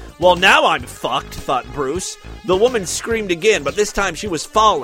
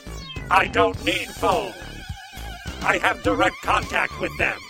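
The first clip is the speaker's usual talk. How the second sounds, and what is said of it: Imitates RoboCop character voice. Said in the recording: “my impression is spot on”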